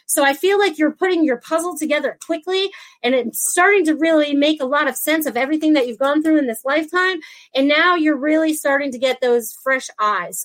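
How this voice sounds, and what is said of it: Very fast speech. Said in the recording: “I'm talking super fast today”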